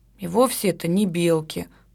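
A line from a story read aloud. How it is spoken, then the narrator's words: Grumbling. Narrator (Russian): пробурчала Катя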